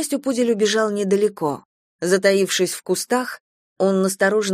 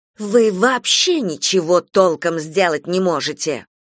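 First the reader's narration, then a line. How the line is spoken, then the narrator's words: Hissing. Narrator (Russian): шипела брюнетка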